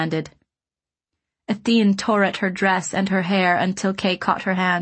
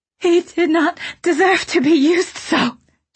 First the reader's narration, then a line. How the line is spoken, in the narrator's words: she said, her voice thick with tears and mad fairy laughter